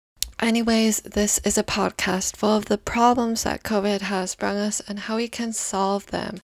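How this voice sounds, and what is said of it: Strained, worn-out voice. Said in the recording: “my voice is dying because I literally just did episode 4 ... my voice hates it”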